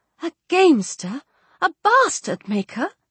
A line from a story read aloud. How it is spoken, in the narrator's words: cried